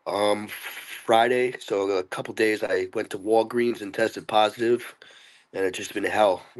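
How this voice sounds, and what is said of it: Sick, rough-sounding voice. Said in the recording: “I have COVID, so I may sound like really bad. ... you can still tell my voice is”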